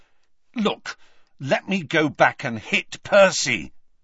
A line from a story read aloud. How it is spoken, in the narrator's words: he said loudly to Hermione